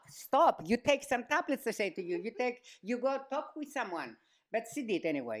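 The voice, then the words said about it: Speaking with an accent. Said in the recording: “I love your accent, Mom.”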